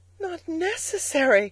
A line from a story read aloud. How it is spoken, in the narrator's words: cried the girl, her big eyes shining